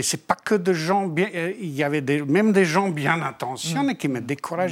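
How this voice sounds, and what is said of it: Foreign accent in French. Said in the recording (French): “avec ton accent ... Avec toujours l'accent”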